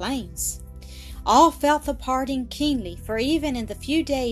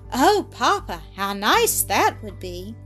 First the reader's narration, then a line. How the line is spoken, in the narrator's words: exclaimed the child, smiling through her tears